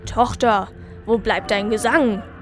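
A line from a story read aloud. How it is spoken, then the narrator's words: Harsh snapping. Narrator (German): schnauzte er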